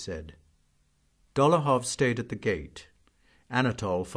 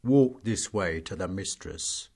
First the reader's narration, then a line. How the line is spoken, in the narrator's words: said the groom in his bass voice